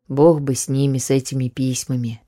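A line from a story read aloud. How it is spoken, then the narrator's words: Quiet, muttered to himself. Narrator (Russian): прибавил он тихо сам себе, ни к кому не обращаясь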